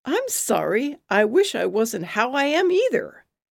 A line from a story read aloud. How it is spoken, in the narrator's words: I yelp